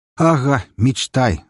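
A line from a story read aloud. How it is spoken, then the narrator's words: Laughing. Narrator (Russian): расхохотался Тор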